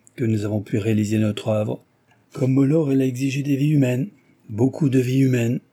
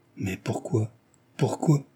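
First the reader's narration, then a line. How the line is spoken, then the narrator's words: Stammered. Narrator (French): balbutia-t-il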